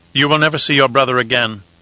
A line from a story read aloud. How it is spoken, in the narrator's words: said coldly